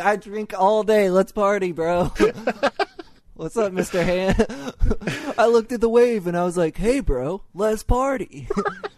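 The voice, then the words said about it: Spicoli surfer-dude impression. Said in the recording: “I guess I do an okay Spicoli impression. ... Spicoli's pretty solid.”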